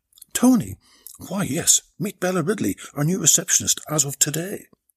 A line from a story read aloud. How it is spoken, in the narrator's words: Giselle quickly came back to her senses and exclaimed